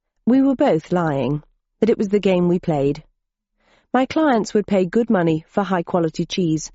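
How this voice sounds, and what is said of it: Usual voice. Nothing is said of it.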